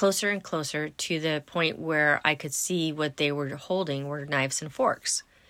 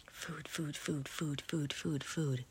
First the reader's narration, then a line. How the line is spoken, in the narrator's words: They were grinding their teeth and whispering